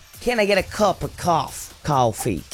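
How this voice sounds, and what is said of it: Imitated New York accent. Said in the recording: “Can you do a New York accent? ... we definitely can't. ... We tried and it got real weird. ... Like how they say coffee”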